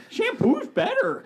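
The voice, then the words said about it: Imitates another person's voice. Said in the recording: “That might have been my best impression.”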